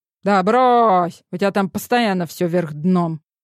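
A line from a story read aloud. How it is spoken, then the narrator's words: Grumbling. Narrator (Russian): Ворчание Бершева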